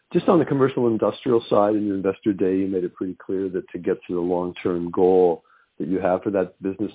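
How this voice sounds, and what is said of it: Deep voice from a cold. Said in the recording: “I got a cold, so my voice is deep”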